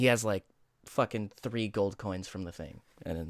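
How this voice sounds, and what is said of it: Usual voice. Nothing is said of it.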